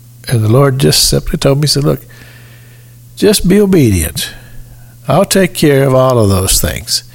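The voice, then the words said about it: Real Southern American accent. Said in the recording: “I have a real southern accent.”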